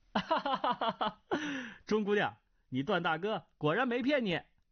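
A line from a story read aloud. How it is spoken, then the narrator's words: Hearty laughter. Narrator (Chinese): 段誉哈哈大笑，…说道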